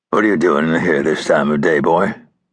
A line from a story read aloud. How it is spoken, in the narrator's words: asked in his gravelly voice